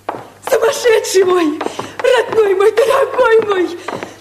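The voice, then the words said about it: Shouting emotionally. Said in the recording (Russian): “Не кричи так!”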